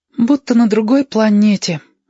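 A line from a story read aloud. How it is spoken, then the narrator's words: Sighing. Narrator (Russian): вздохнул Кудрявость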